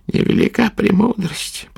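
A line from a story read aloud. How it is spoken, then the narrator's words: Muttering. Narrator (Russian): пробормотала она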